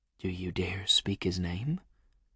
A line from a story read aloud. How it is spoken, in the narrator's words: I whispered softly